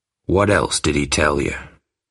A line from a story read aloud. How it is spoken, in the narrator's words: asked Bill, lowering his voice